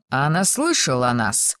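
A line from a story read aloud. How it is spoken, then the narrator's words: Plain question. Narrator (Russian): спросил второй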